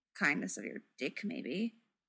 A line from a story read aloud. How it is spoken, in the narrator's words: Clint mutters